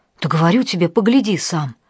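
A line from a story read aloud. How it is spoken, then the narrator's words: Surprised exhale. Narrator (Russian): второй голос, принадлежавший неведомому Костяну, удивленно выдохнул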